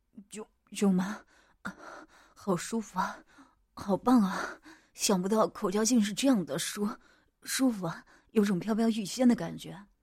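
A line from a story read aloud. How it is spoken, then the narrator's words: Panting. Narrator (Chinese): 我喘息着说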